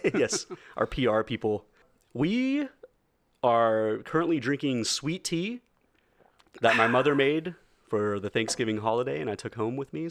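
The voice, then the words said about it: Southern drawl accent. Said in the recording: “Southern drawl”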